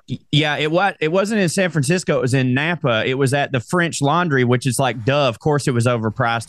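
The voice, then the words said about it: Speaks with a regional accent. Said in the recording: “with my accent, you can understand I've had quite a lot of rabbit”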